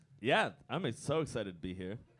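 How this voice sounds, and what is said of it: Flat, unexcited-sounding cadence. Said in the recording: “you can't tell this is the only cadence that my voice has”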